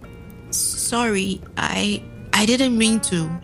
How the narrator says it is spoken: sputtered

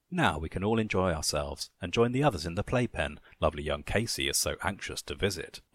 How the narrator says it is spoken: Bob chuckled

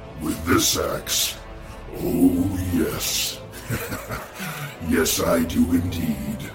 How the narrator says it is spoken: my father said with a sinister growl

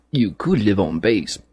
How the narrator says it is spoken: he said

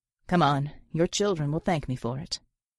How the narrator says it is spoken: He chuckled and said

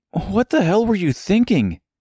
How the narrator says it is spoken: With his lungs no longer being crushed by the dead weight, the boy gasped

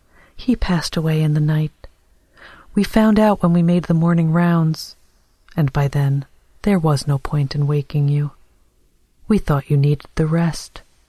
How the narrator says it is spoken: A nurse said kindly

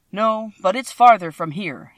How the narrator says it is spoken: he said, shaking his head at her sadly

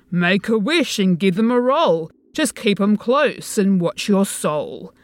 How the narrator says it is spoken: sings the voice merrily

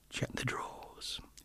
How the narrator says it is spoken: he muttered under his breath

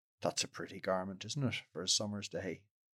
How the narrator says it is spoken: he muttered sneeringly

